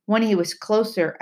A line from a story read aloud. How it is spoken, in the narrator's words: I said harshly